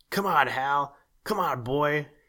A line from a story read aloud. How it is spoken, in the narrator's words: he bellowed at the top of his lungs